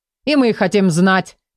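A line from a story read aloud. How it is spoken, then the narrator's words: Gruff bark. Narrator (Russian): рявкнул Вартан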